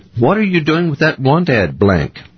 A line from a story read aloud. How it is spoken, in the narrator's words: exclaimed suspiciously